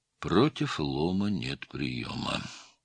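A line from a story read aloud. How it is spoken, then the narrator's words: Mutter. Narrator (Russian): пробормотал Стольников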